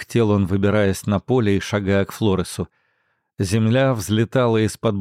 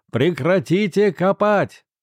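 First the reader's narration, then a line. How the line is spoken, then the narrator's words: Shout through cupped hands. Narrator (Russian): он сложил ладони рупором и крикнул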